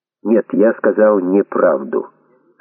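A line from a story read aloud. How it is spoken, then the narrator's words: Plain. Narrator (Russian): ответил Майкл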